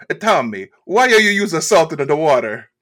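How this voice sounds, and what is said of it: Impression of mom, New Jersey accent. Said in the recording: “great impression of his mom. Spot on ... You're in like New York or New Jersey. New Jersey, I think ... her accent”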